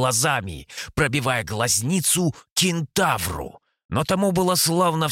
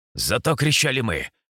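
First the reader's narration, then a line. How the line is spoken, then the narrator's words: Snorted. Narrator (Russian): хмыкнул третий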